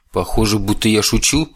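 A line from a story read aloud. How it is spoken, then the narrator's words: Irritated question. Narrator (Russian): раздраженно переспросил Чес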